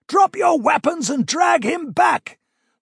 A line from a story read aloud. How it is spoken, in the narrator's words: the prince shouted at Corin again